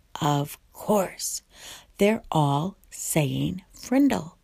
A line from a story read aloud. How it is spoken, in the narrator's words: puzzled said softly